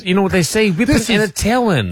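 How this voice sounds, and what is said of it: Cartoon character voice. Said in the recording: “What was that accent? ... He's doing a Bugs Bunny. ... I thought it was a Bugs Bunny. ... That's Sylvester. ... that Bugs Bunny range”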